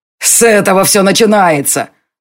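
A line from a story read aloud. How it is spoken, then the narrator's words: Angry shout. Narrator (Russian): злобно крикнул Бернар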